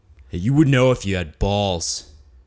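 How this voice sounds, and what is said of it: Put-on Minnesota accent, lower voice. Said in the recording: “Still in a Minnesota accent ... It's ... with the lower voice”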